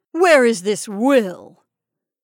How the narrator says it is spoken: Then, harshly

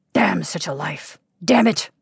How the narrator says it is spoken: sputtered aimlessly

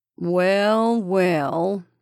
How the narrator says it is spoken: he drawled

